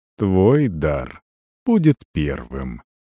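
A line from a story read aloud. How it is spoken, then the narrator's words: Almost tender. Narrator (Russian): сказал почти ласково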